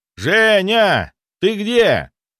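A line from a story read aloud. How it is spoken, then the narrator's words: Shouted. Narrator (Russian): прокричал я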